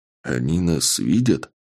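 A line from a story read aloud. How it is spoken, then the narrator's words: Whisper. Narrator (Russian): шепнул я Андрею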